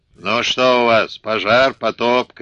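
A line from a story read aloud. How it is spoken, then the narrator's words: Shouted. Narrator (Russian): крикнул брату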